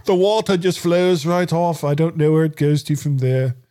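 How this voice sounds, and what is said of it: Exaggerated, unconvincing put-on British accent. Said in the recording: “What sort of accent is that? ... that's exactly the way I said Americans do British accents ... my European English accent”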